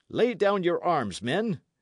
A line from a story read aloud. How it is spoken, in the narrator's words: cried the stranger knight